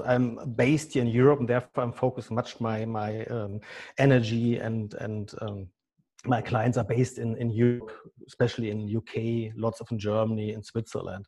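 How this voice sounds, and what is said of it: German accent. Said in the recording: “as you can hear easily by my German accent.”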